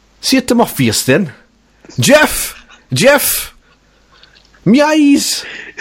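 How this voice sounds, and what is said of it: Attempted Geordie accent, sounds Jamaican. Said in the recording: “That was maybe a Geordie accent ... You sound like Rastafarian ... Jamaican man”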